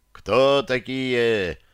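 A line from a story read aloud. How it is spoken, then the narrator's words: Shouting from tower. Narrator (Russian): кричал часовой с Клодской башни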